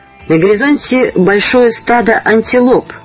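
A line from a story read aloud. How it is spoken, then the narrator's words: Loud loudspeaker voice. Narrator (Russian): громко сказал динамик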